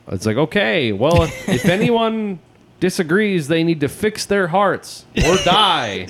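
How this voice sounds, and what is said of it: Imitates another person's voice. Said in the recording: “That was a decent impression. ... That was decent.”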